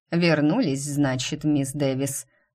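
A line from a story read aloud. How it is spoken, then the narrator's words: Creaky voice, approaching. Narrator (Russian): проскрипел он, приближаясь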